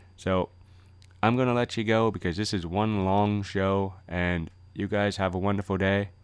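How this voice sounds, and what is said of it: Voice slightly off, impaired speech. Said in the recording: “my voice is a little bit off still. I still got 50 stitches in my mouth.”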